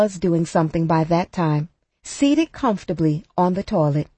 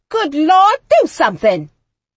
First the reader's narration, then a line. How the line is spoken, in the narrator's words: They kept shouting